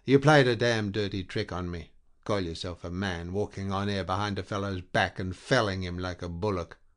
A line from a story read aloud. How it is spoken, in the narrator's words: said in a strong voice